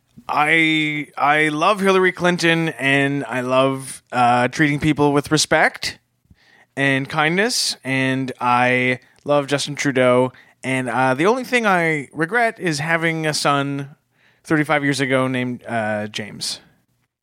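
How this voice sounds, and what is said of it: Imitates another person's voice. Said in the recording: “to do an impersonation. ... It was your dad, James.”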